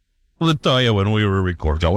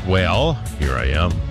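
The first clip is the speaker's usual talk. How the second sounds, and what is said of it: Booming radio announcer voice. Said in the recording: “Did you just do a radio voice? ... radio voice”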